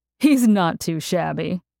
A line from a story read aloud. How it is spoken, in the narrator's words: Danny answered with a laugh